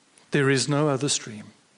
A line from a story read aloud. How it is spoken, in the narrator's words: said the lion